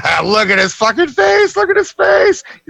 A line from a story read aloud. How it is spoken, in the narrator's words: Whitey just fucking cackles